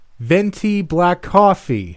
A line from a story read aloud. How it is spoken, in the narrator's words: shouted